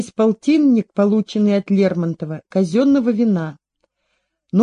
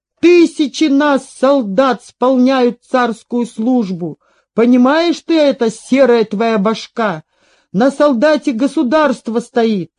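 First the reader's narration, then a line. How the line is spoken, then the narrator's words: Shouting soldier. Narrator (Russian): солдат закричал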